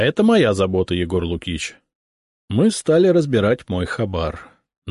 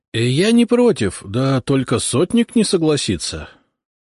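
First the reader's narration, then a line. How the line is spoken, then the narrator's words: Uncertain. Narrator (Russian): как-то неуверенно произнес Фомин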